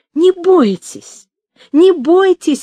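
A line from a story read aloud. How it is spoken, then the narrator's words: Emotional exclamation. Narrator (Russian): воскликнула Катя с чувством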